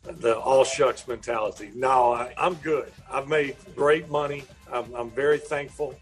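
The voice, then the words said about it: Southern American country accent. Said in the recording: “my country accent”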